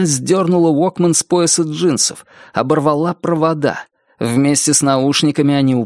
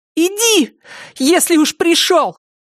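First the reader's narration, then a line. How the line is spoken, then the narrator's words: Shouting. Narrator (Russian): крикнула Триша медведю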